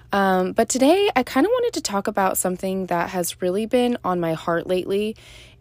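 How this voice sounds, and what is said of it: Sore-throated, slightly off voice. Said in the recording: “I have a sore throat and it literally came out of nowhere. Um, so if my voice sounds a little off”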